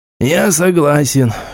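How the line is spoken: Snort. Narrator (Russian): фыркнул Галицкий

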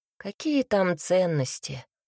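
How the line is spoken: Sigh. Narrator (Russian): вздохнул

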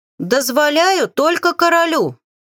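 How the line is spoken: Shouting. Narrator (Russian): прокричала

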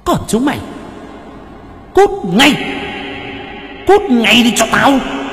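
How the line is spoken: Ghost woman hissing. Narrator (Vietnamese): ma nữ rít lên

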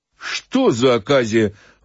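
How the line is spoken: Exclaiming. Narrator (Russian): воскликнул Фома

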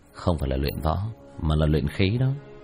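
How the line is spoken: Smiling. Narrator (Vietnamese): Vương Quân Diệt khẽ mỉm cười

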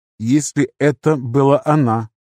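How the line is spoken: Plain. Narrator (Russian): сказал император

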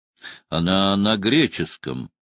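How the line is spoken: Drawn-out, puzzled. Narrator (Russian): протянул Тальбот

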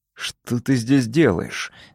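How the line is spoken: Angry question. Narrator (Russian): злобно спросил

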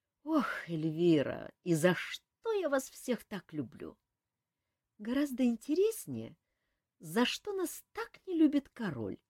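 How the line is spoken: Purring. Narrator (Russian): промурлыкала Эльвира

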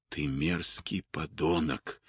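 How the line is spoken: Said quietly. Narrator (Russian): тихо произнес Кэт

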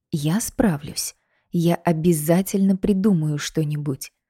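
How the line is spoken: Whispered. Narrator (Russian): зашептала

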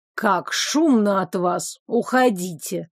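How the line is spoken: Sudden grumble. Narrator (Russian): заворчал Фрай Дай, сурово глядя в нашу сторону

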